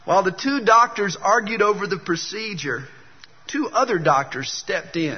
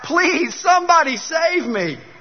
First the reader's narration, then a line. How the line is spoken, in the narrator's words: Letts cried out